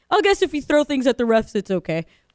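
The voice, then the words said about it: Imitates another person's voice. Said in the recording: “That was a terrible impression of Dak ... I actually love your Dak Prescott impression ... that Dak voice”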